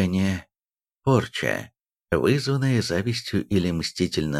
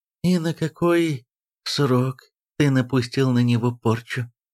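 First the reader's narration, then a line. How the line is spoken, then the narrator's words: Very tender question. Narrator (Russian): нежнейшим тоном спросил король Тробиус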